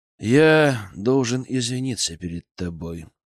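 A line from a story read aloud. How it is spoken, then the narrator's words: Sighing. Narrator (Russian): вздохнул я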